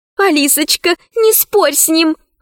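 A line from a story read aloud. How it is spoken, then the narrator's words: Pleading. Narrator (Russian): взмолилась Заури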